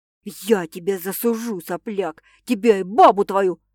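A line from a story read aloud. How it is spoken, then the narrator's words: Furious yelling, bloodied nose. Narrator (Russian): Злобно орет всклоченный, вытирая капающую кровь из разбитого носа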